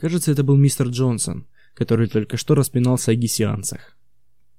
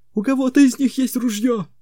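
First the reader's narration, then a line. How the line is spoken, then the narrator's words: Shout. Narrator (Russian): крикнул мистер Джонсон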